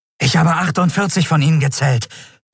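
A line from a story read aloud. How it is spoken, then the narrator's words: Breathless report. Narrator (German): berichtete der Yadi atemlos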